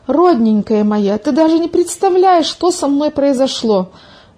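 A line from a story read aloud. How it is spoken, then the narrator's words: Exclamation. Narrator (Russian): воскликнула Милка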